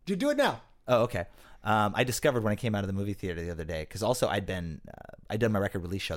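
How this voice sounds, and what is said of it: Usual voice. Nothing is said of it.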